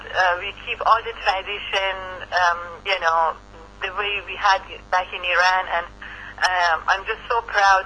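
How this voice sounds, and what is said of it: Iranian-accented English. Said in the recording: “I cannot lose my accent for sure... I have my accent... having a little touch of Iran in my voice”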